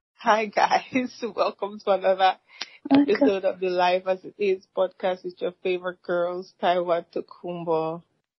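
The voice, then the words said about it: Groggy, low voice. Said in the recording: “bedroom voice ... This is not bedroom voice. This is just groggy.”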